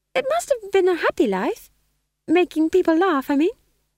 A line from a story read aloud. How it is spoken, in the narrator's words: said McGrath, her voice higher than usual with a vibrato of uncertainty